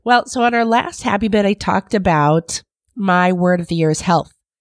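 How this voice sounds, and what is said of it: Congested voice from a cold. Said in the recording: “You can hear by my voice that I caught the killer of all colds.”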